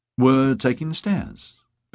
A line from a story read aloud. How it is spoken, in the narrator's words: Beata said in a light tone